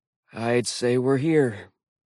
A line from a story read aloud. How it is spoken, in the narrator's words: Blitz sighed